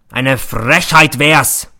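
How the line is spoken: Bellowing. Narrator (German): brüllt er

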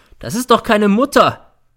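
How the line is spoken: Shouting. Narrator (German): schreit

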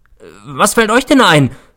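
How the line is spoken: Shouting at them. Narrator (German): schrie ich sie an

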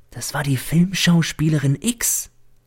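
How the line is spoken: Servant whispering. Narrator (German): flüstert mir der Diener zu

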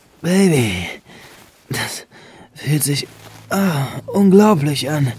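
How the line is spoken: Louder moaning. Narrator (German): stöhnte Benjamin nun etwas lauter

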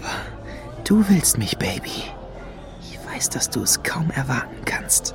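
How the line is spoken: Whispered. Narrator (German): flüsterte er Lady Luna zu

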